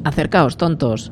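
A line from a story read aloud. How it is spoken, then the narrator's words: Shouted. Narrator (Spanish): les gritó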